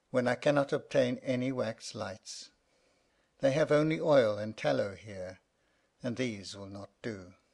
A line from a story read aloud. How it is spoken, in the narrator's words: sighed the old lamp